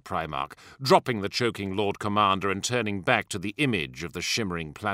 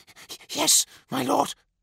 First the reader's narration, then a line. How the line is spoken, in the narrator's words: hissed Eidolon